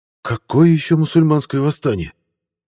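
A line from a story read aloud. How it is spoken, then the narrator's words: Breathed out. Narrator (Russian): выдохнул Артем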